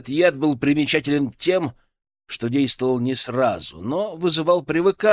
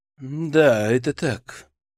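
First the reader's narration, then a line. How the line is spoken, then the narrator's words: Sighing. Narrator (Russian): вздохнул Яков Станиславович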